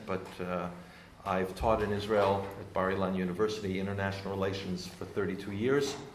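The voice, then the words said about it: American accent. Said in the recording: “I do have an American accent”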